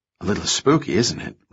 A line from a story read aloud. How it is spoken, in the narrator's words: Remy whispered